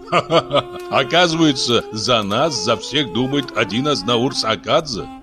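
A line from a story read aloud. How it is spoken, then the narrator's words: King's laughter. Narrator (Russian): рассмеялся царь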